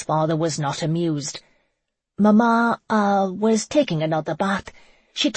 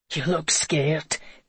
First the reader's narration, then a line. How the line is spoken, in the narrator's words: Conan chuckled under his breath